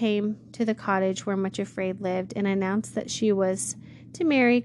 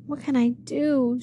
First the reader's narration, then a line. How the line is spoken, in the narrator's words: cried